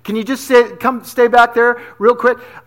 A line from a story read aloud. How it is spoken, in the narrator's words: I cried to the Lord with my voice